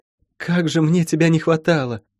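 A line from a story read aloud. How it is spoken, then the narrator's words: Affectionate purring voice. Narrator (Russian): Диана ласково муркнула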